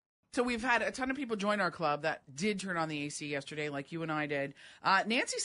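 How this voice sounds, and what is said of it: Usual voice. Nothing is said of it.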